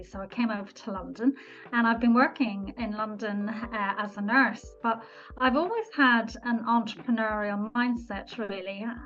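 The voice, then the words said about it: Irish accent. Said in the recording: “I'm actually Irish. You probably get a little bit of my accent.”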